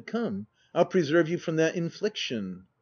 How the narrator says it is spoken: he stepped laughingly forward and said

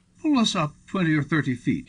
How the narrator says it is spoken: he cried

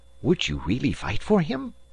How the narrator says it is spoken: whispered to the detective

